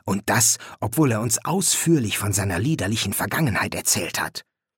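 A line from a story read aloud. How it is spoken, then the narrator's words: Whisper. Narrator (German): flüsterte Louis Fraser zu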